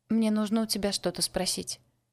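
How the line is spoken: Quiet. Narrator (Russian): тихо сказала Люси

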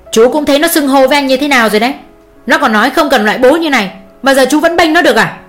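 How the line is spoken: Angry snapping. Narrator (Vietnamese): ông gắt lên

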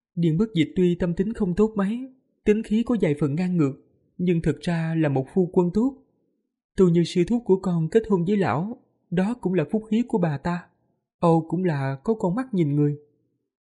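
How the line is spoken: Sighing. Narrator (Vietnamese): Thủy Nguyệt đại sư buông tiếng thở dài rồi nói

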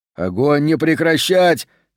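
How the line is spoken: Shouted. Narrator (Russian): кричал

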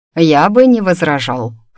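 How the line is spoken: Amused snort. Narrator (Russian): хмыкнул Адам

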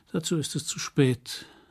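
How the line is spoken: Sighing. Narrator (German): seufzte Tony

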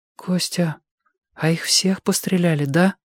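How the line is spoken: Whispered question. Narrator (Russian): шепотом спросила Белка

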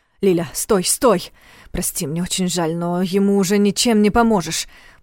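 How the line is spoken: Mumbling. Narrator (Russian): пробормотал он

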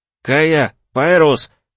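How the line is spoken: Shouted into the darkness. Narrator (Russian): крикнул я в темноту

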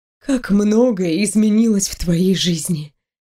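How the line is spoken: Sighing. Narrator (Russian): вздохнула наставница

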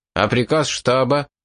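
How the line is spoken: Irritated officer exclaiming. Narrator (Russian): раздраженно воскликнул начальник гарнизона

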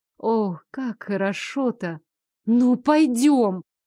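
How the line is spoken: Pleading. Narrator (Russian): Взмолилась я

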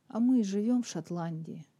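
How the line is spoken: Gloomy. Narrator (Russian): мрачно проговорила Кейт

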